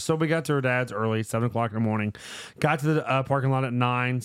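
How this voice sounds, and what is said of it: Rough, hoarse voice. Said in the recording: “my voice is a little ripped up. It's coming back.”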